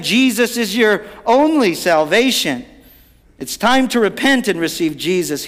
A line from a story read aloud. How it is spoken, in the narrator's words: cried out again